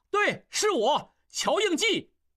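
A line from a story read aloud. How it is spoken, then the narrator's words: Loud shout. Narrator (Chinese): 应济也跟着大叫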